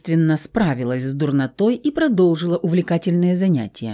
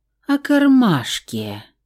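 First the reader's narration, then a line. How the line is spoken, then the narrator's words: Reluctant, heavy sigh. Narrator (Russian): Тяжело вздохнув, нехотя ответил Кудрявый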